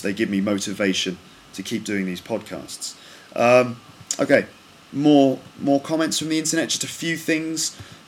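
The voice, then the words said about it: British BBC-style broadcaster accent. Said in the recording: “my accent is similar to Martin Bashir ... a typical sort of British broadcasting accent ... a typical kind of BBC accent”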